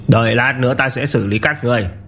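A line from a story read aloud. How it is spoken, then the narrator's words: Contemptuous. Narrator (Vietnamese): khinh thường nói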